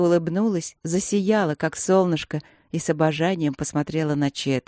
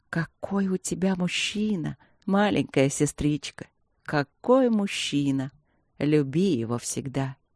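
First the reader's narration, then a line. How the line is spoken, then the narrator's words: Delighted whisper. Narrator (Russian): восторженным шепотом добавила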